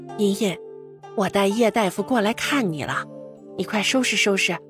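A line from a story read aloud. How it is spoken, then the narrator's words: Quiet voice. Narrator (Chinese): 钱夫人小声说道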